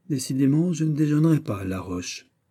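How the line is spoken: Sighing. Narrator (French): Et le comte ajouta en soupirant

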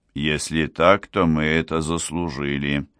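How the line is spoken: Gloomy. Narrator (Russian): сказал Энок мрачно

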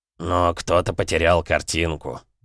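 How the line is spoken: Muttering. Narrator (Russian): пробурчал Смородине

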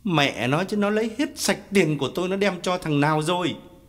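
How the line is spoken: Aggrieved yelling. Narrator (Vietnamese): Khái uất ức gào lên

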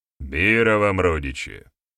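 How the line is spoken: Very solemn. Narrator (Russian): максимально торжественно произнес Барята

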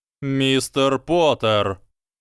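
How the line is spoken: Bellow. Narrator (Russian): гаркнул он

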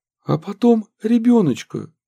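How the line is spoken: Fearful pleading. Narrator (Russian): взмолилась молодая жена, которая боялась

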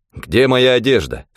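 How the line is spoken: Plain. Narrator (Russian): спросил я

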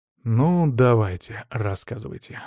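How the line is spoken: Sighing. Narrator (Russian): вздохнул я

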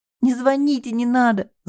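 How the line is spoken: Muffled sobbing. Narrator (Russian): зарыдала она, закрыв лицо руками

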